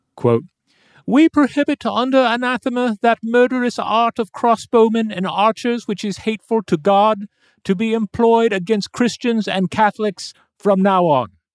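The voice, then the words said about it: Michael Palin impression, Monty Python style. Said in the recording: “doing my best attempt at a Michael Palin accent from Monty Python and the Holy Grail ... not a bad Michael Palin”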